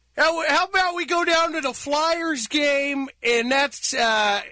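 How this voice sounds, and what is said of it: Put-on Philadelphia accent. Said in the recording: “The Philadelphia accent ... man of a thousand accents ... Wow, it's like I was home ... No, perfect”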